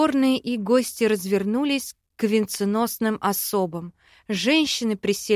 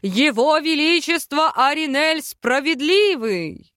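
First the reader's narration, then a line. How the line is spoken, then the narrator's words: Booming call from afar. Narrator (Russian): Из коридора крикнули зычное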